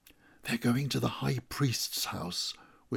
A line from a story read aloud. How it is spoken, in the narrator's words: whispered John